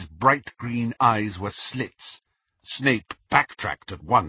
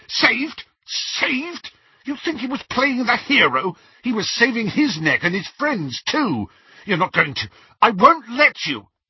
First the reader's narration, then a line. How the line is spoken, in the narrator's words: Snape's whole face contorted, and he spluttered